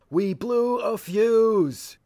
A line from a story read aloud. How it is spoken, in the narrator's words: the others couldn't hear him, so he hollered